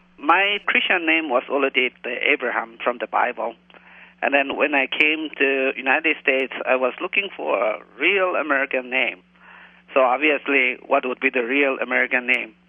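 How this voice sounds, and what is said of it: Slight Indian accent. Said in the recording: “I hear a little accent there. ... I am from India.”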